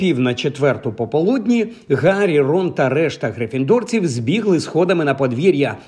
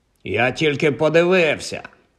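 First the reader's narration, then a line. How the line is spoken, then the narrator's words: Grumbled. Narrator (Ukrainian): буркнув він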